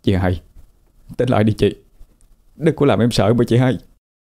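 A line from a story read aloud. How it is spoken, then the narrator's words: Choked with tears. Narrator (Vietnamese): Giọng cậu nghẹn ngào cất lên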